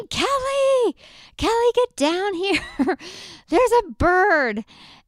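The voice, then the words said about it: Screaming. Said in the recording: “I'm screaming,”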